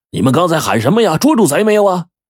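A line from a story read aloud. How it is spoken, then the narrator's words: Shouting while running. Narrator (Chinese): 桂南娃边跑边喊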